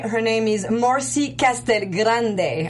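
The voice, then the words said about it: Put-on Spanish accent. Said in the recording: “I don't know why I'm taking again the Spanish accent.”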